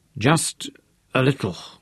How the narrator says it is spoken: whispered, and his voice caught

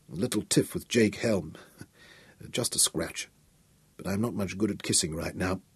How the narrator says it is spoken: mumbled, trying to grin around the bandage

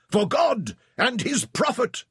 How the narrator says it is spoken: screamed

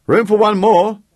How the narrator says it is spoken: shouted

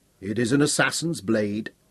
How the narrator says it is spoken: Ned said quietly

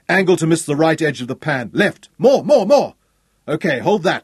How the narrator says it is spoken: he shouted

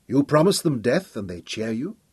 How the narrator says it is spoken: Judith Nazet said softly when they were alone

